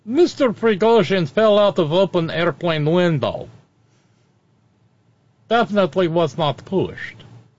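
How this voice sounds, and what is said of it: Put-on Russian accent. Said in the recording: “in the Russian accent”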